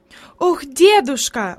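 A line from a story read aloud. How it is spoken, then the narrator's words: Exclaimed while hurrying. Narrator (Russian): воскликнула она еще на ходу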